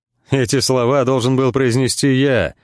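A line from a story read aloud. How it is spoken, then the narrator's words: Laughing. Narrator (Russian): засмеялся Моржовый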